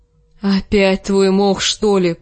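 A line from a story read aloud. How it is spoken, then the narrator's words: Groaning. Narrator (Russian): простонал Джендри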